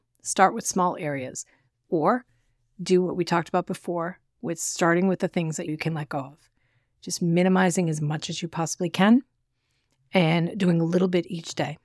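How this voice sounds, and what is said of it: Strained, fading voice. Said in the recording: “My voice is going out on me today.”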